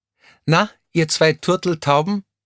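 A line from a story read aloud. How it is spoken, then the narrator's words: Teasing call from nearby. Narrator (German): rief jemand in der Nähe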